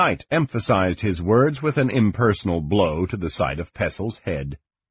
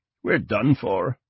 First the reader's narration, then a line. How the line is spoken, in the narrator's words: Mortar muttered